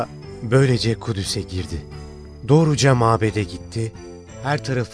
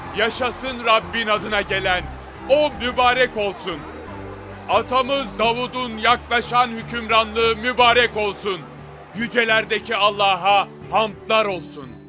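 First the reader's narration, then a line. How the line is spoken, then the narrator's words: Crowd shouting in unison. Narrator (Turkish): Hep bir ağızdan şöyle bağırıyorlardı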